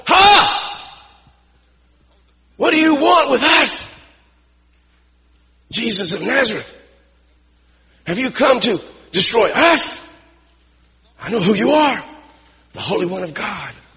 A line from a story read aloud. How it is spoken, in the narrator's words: he cried out at the top of his voice